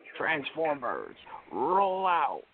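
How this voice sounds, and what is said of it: Optimus Prime voice impression. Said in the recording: “a different voice ... The Optimus Prime of joy.”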